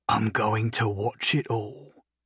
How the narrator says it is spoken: Silver whispered

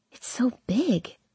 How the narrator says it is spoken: I whisper to Hardin

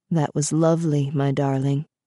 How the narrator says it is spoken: he said

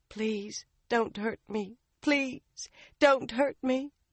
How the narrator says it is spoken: Somehow she managed, whimpering

